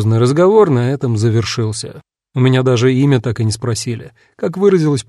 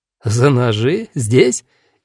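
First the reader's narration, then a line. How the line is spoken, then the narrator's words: Hearty laughter. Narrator (Russian): И Юстус, и Паулина искренне расхохотались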